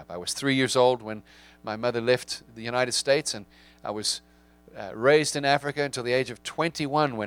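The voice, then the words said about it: South African accent. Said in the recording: “as you can tell from my accent, I have clearly grown up somewhere else other than New England ... I do have an accent. My accent is from South Africa.”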